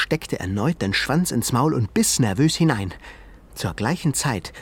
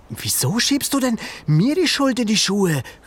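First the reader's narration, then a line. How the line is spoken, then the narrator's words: Calling. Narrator (German): rief Ben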